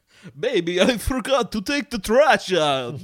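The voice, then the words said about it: Dracula impression voice. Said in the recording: “do a Dracula impression ... start speaking in Dracula ... Bela Lugosi”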